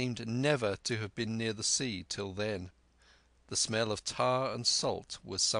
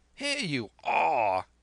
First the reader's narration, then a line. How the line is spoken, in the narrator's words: he cried